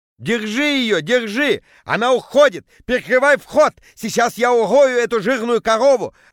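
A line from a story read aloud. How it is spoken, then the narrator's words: Yelling. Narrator (Russian): орал Петя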